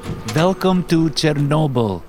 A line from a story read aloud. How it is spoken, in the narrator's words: Alina chirped